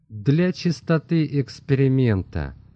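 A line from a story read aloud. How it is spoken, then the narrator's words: Plain. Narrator (Russian): ответил Котто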